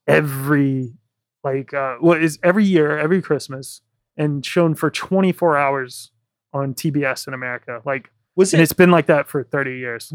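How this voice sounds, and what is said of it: American accent. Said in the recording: “I'm from America. If you haven't guessed by my accent”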